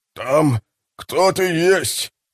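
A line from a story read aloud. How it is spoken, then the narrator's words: Whimper. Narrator (Russian): проскулил Адамс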